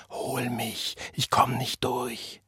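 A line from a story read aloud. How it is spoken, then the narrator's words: Whispering. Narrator (German): flüsterte John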